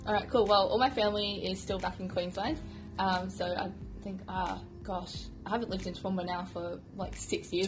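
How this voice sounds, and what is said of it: Slight English twang. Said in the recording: “I can hear a bit of an English twang”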